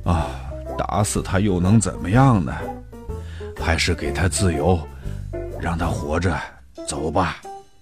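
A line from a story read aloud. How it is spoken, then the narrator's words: Murmuring. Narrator (Chinese): 猎人 喃喃地说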